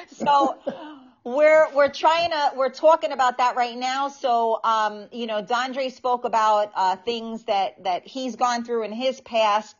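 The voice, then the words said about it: Speaks with a noticeable accent. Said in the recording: “with my accent, God knows what that sounds like”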